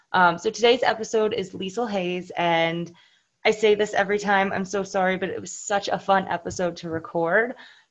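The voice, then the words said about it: Raspy voice. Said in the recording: “sorry for my raspy voice ... had some drinks, and I talked a little bit too much”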